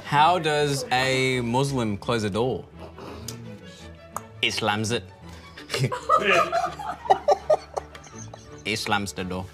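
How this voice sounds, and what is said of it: Put-on Irish accent. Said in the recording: “It's an accent ... You're Irish again ... Do you only know Irish accents?”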